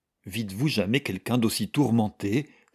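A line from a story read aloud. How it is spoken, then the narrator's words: Exclaiming. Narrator (French): s'écria Mrs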